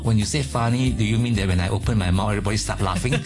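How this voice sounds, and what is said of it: Malaysian English accent. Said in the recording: “Your accent is quite funny ... I'm a Malaysian and this is a normal Malaysian accent”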